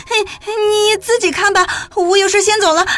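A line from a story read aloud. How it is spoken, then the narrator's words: Crying out in pain. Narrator (Chinese): 青印 捂着眼睛叫道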